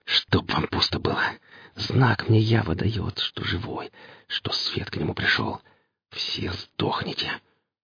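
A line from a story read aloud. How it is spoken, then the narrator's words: Whispering. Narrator (Russian): шептал он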